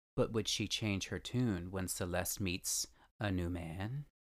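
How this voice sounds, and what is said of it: Dramatic true-crime narrator voice. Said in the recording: “pretend with me that I'm doing in this in my very best dramatic voice actor persona ... You did it just like they did.”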